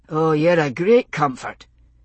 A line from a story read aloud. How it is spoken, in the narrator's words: Roger said dryly